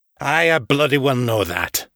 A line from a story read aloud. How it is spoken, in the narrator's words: Artax snarled